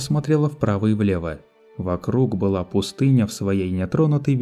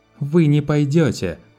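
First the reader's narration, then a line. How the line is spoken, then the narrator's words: Angry snap. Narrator (Russian): зло огрызнулась она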